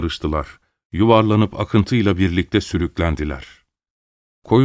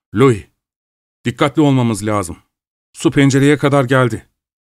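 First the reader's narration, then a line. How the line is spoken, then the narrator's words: Shouting. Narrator (Turkish): diye bağırdı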